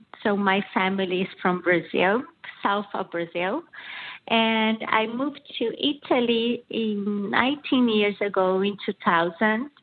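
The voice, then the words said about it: Brazilian accent. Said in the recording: “as you can see from my accent, I'm originally from Brazil”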